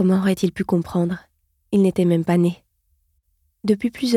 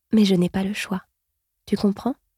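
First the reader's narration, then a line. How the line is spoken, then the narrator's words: Soft murmur. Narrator (French): murmura-t-elle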